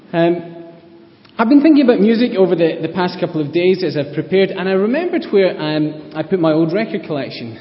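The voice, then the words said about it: Scottish accent. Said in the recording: “my Scottish accent, I say Sam funny”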